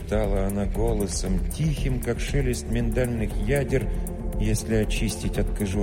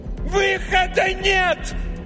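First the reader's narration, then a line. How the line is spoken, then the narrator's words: Yelled in face. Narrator (Russian): заорала она прямо ему в лицо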